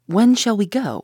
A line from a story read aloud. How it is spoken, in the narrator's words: I asked